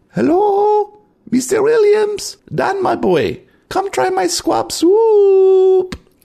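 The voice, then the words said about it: Strange high-pitched foreign-accented voice. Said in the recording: “a strange, high-pitched voice with a foreign accent”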